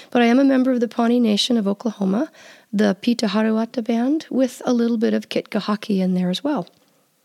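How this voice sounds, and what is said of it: Voice affected by a cold. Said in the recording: “I have a little bit of a cold, so I apologize right now for the quality of my voice”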